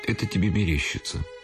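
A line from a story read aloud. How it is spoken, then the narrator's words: Plain. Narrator (Russian): сказал он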